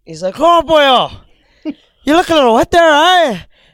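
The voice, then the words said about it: Put-on Irish accent. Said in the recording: “he's like this Irish guy ... do an impression.”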